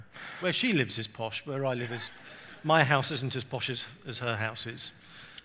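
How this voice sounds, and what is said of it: English accent. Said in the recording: “I'm from England. You can probably tell from my um, accent.”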